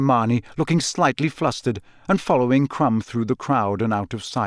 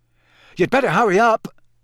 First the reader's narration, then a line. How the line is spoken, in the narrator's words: Ron called loudly after her